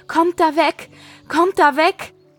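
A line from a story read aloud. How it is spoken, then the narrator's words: Shouting while running. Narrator (German): Sie rief und schrie im Laufen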